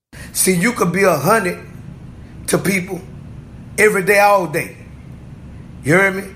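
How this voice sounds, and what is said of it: New Orleans accent. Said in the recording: “New Orleans, Louisiana ... The New Orleans accent is very particular and it's hard to understand if you're not familiar with it”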